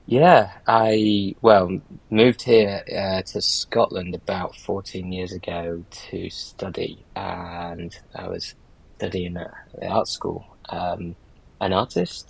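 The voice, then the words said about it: Northern English Yorkshire accent. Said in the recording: “I grew up in Yorkshire in the north of England, so my voice, my accent isn't typically Scottish”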